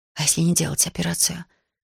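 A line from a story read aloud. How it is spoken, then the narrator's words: Quiet woman asking. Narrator (Russian): тихо спросила женщина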